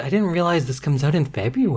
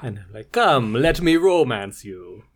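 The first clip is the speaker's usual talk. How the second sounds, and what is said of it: Vague put-on accent, Muppet-like. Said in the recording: “I don't have like a specific accent. It's just accent. ... kind of like a Muppet. ... It sounded a little bit like the Count.”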